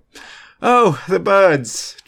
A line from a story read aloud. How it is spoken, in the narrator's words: George said with a faked laugh